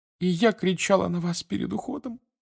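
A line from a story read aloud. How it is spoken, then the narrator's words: Sobbing again. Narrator (Russian): вновь зарыдала миссис Уизли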